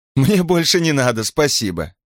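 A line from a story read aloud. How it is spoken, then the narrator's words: Laughing. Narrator (Russian): Все еще смеясь, остановила ее Рита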